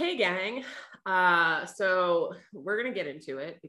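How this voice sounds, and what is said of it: Usual voice. Nothing is said of it.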